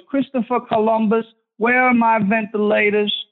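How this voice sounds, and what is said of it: Cuomo impression sounding Southern. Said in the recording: “Cuomo ... That sounded Southern.”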